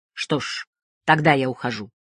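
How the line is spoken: Cold. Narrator (Russian): холодно сказал

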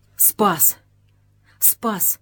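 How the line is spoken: Whisper. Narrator (Russian): шептал Заломин

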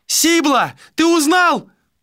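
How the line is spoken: Shouted. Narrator (Russian): прокричала Малика

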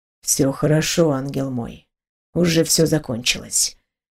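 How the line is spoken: Gentle smiling voice. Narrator (Russian): мягко улыбаясь

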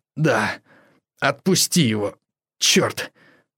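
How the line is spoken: Hoarse wheeze. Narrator (Russian): прохрипел серый человек

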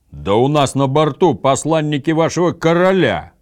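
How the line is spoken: Even louder roar. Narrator (Russian): еще громче проревел Гудмунд

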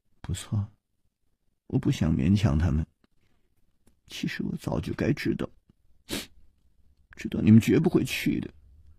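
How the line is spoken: Murmured softly, dejected. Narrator (Chinese): 琵琶公主 喃喃地说

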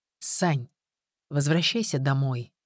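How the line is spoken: Unexpectedly calm. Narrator (Russian): неожиданно спокойно произнес он

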